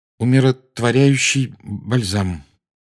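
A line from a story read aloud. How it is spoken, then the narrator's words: Strained, forced out. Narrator (Russian): выдавил из себя Гарри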